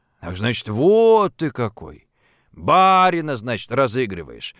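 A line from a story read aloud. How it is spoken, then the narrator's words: Frustrated, seething drawl. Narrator (Russian): Страдая от невозможности тут же немедленно дать Антошину в зубы, протянул пристав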